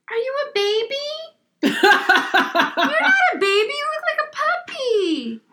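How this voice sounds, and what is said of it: Valley Girl style pet-talk voice. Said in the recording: “you don't sound like yourself ... Long Island, basic ... Sometimes I turn into a Valley Girl when I'm in, like, my dog mommy mode ... That's your dog voice? Is your Valley Girl voice?”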